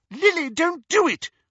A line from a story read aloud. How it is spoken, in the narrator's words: shrieked the elder of the two